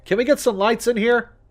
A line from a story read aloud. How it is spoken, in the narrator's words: called out